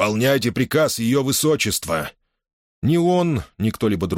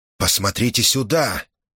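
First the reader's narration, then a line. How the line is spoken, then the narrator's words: Whisper. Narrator (Russian): прошептал Корхан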